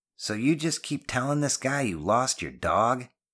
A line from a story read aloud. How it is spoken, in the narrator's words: Janetti scoffed